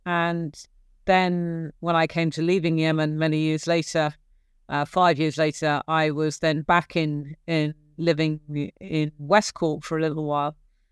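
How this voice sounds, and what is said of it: English accent. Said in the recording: “as you can hear, very much an English accent”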